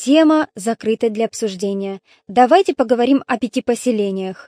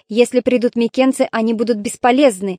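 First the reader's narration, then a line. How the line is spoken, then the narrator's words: Angry remark. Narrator (Russian): сердито заметил Павзаний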